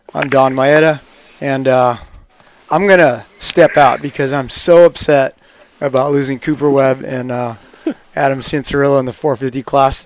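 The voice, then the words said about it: Hoarse, froggy voice cutting out. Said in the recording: “my voice is a little bit froggy. It cuts in and out”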